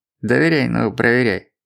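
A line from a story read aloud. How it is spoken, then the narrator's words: Nervous giggle. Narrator (Russian): он нервно хихикнул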